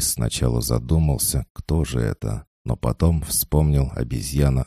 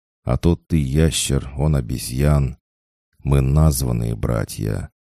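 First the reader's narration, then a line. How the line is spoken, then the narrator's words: Calm steady speech. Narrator (Russian): Сора продолжал говорить совершенно спокойно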